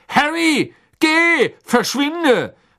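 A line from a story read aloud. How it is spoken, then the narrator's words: Calling out. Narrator (German): rief Mr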